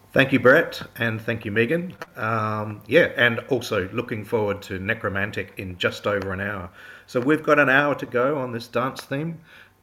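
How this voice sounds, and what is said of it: South Australian accent. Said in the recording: “I don't know if you've picked me up on my accent. Dance, that's only really said in South Australia, New Zealand, and possibly some southern England towns.”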